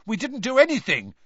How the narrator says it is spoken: said Ron, looking indignantly

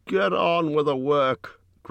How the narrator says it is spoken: growled the butler

